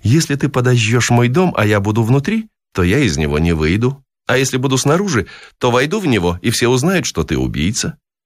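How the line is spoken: Laughing. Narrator (Russian): с хохотом сообщила она

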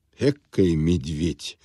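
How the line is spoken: Muttering clerk. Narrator (Russian): пробормотал ему вслед главный конторщик

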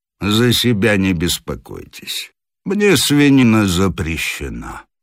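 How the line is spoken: Lazy reply. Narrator (Russian): Крылов, услышав направленную против него колкость, лениво ответил

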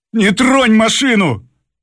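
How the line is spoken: Shout. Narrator (Russian): крикнул шофер

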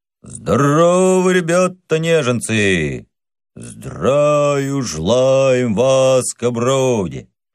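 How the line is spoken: Dull, spiritless group reply. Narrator (Russian): Невольно в тон отвечал полк глухо и без солдатской лихости

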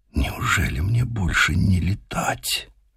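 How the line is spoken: Crying, barely audible whisper. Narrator (Russian): Заплакал и сам Мичман, прошептав еле слышно

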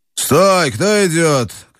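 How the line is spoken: Rough shout from fog. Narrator (Russian): крикнул грубый голос из тумана

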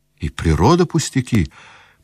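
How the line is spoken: Thoughtful. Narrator (Russian): проговорил Аркадий, задумчиво глядя вдаль

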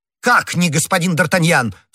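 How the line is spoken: Shouting. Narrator (Russian): в свою очередь закричал комиссар

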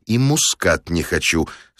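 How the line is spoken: Quiet but firm. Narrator (Russian): сказал я негромко, но твердо

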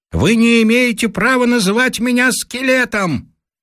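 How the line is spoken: Distant loud shout. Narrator (Russian): вдали на реке кто-то громко кричит

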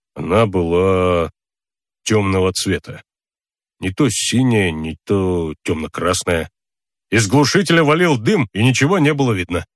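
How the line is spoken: Uncertain. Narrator (Russian): неуверенно сказал полицейский номер 141

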